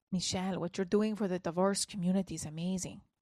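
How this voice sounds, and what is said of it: Poor put-on Latin accent. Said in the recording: “I hear it in his voice. Now, I am not good at a Latin accent. It usually sounds Lebanese.”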